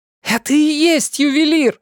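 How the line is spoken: Yelling. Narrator (Russian): заорала я

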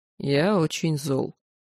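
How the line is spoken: Grim. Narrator (Russian): мрачно сообщил магистр

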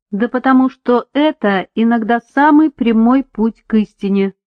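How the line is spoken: Plain. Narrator (Russian): ответил он

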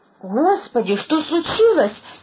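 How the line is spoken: Frightened exclamation. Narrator (Russian): со страхом воскликнула

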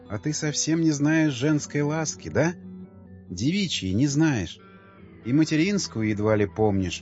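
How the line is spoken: Quiet speech. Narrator (Russian): тихо говорила

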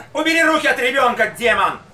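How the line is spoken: Shouting. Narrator (Russian): крикнул фельдшер

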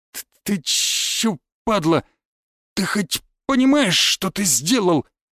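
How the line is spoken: Stammering, forced out. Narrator (Russian): Заикаясь, выдавил из себя один из шестерок

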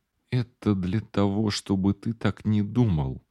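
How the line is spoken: Mumbling. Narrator (Russian): пробормотала она

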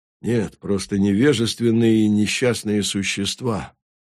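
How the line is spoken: Quiet. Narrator (Russian): тихо сказал Халимор

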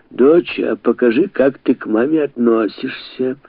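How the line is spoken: Mother's mocking tone. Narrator (Russian): насмешливо сказала мать

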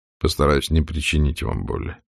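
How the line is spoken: Quiet. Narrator (Russian): сказал он тихо

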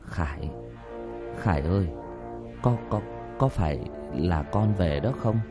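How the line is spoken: Slow, trembling, hopeful. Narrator (Vietnamese): Bố nó từ từ lên tiếng một cách run rẩy

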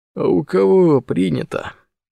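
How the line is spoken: Sleepy. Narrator (Russian): сонно уточнил Морозов

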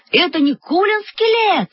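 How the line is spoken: Yelled. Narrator (Russian): заорал Павлик

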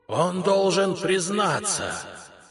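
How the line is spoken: Ghostly moan. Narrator (Russian): застонал один из призраков

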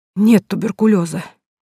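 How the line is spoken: Girl exhaling words. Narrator (Russian): выдохнула девушка

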